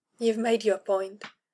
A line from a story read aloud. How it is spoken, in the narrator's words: muttering, a wave of bitterness breaking over an endless beach of affection